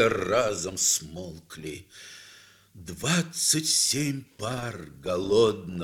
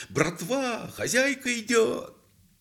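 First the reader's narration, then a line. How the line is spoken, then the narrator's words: Loud. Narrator (Russian): Кто-то громко сказал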